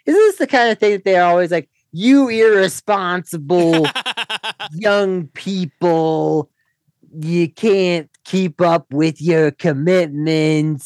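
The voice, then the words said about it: Put-on accent. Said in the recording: “I don't know why I'm going into this accent.”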